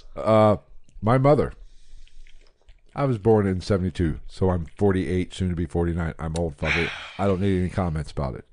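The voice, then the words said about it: Slurred, drunk-sounding speech. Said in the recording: “I'm slurring ... I'm about drunk.”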